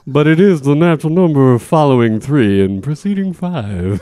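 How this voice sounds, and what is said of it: Slurred crooner-style impression. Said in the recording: “I do it in a Dean Martin voice ... Did you do it in a Dean Martin voice? ... I hadn't slurred anything as of yet ... Well, it seems a little obvious, Dean.”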